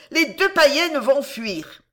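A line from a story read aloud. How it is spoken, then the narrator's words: Shouted. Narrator (French): cria-t-elle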